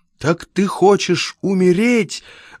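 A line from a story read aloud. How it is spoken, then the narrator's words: Desperate exclamation. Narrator (Russian): в отчаянии воскликнул Рультаби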